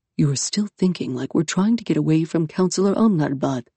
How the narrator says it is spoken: Iskander whispered to her

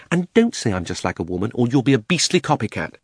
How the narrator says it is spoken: she added hastily in her real voice

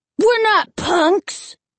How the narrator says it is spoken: the heavier boy shouted angrily

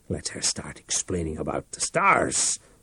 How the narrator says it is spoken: Reich muttered, halfway between anger and terror

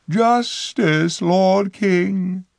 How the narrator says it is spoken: she cried

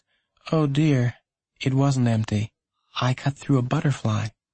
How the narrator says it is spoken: his mom had said in a sad voice

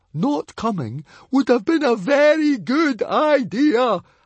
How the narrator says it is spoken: howled Fishlegs

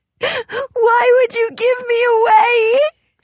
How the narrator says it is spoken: She sobbed

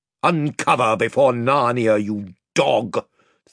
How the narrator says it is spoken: thundered the Lord Byrne

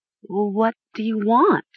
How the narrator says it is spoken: Talia stammered

